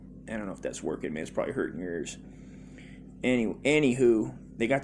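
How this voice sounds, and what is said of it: Usual voice. Nothing is said of it.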